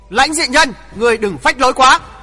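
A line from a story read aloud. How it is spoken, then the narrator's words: Loud shout. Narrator (Vietnamese): một tiếng hét lớn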